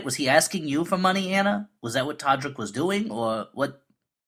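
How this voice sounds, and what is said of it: Exaggerated cartoonish accent. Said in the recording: “the more I talk, the more cartoonish my accent gets ... essentially a character from a Bugs Bunny cartoon”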